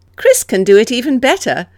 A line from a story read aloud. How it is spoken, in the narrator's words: Alice said, laughing